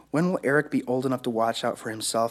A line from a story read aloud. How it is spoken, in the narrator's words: I asked